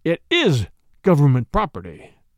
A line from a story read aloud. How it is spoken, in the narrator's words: he answered hotly